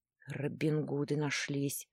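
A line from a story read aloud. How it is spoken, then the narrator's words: Mumbled. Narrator (Russian): пробормотал Владлен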